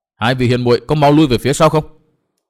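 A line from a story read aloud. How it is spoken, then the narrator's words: Anxious urgent shout. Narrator (Vietnamese): Chàng lo âu vô cùng, vội lớn tiếng quát bảo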